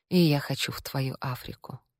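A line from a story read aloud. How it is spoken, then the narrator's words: Quiet, muffled reply. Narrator (Russian): тихо ответила Таш, уткнувшись носом ему в шею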